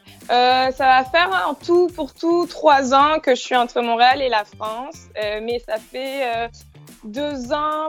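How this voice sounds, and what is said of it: Slight Quebec French accent. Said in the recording (French): “J'entends un petit accent québécois. Vous avez déjà l'accent canadien ... je commence à prendre des petites traces”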